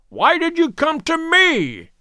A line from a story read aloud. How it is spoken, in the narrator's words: he cried